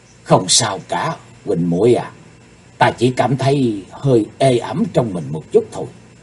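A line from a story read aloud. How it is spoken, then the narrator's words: Soft reply. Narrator (Vietnamese): Chí Tôn khe khẽ đáp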